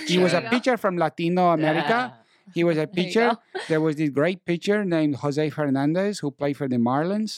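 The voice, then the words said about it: Put-on Latino accent. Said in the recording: “I speak in a Latino accent ... Very impressed ... Very good.”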